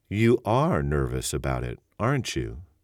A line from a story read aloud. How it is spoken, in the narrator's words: Spangler said in a mildly wondering tone